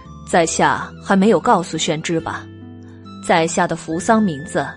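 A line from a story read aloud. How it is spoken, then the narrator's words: Calm, faint smile. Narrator (Chinese): 于润之…淡淡一笑，说道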